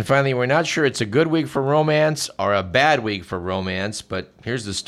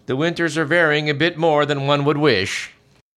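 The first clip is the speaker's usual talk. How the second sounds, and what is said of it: Fake Swedish accent. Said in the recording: “that was a fake Swedish accent, but I don't really know how to, know how to do Norwegian.”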